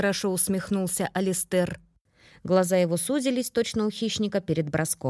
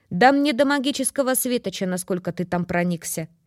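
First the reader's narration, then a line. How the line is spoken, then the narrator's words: Snorting dismissively. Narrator (Russian): фыркнула Грейс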